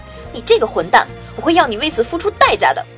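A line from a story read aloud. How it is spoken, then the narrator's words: Angry, loud. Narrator (Chinese): 他愤怒地大声说道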